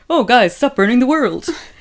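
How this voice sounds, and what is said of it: Imitates another person's voice. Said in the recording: “Which is a really good impression of a lot of architects.”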